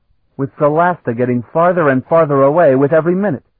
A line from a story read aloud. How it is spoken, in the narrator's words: Carlton added bitterly